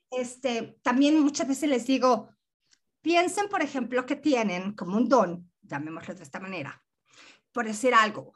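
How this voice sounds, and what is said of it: Mexican Spanish accent. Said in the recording (Spanish): “acento que tengo, que déjame decirte que soy mexicana, este acento raro que tengo”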